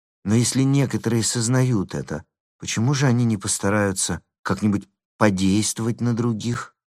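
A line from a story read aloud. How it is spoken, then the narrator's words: Plain. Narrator (Russian): спросила девушка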